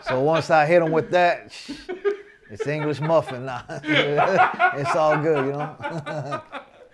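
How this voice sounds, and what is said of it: American California accent. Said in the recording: “that American California accent”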